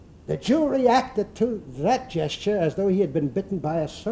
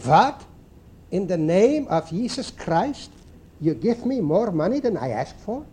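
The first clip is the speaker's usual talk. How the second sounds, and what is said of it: Put-on Jewish-flavored accent. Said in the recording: “in his Jewish flavored, you know, accent”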